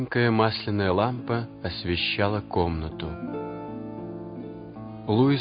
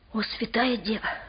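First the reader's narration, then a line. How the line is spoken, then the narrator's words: Whisper. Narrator (Russian): прошептал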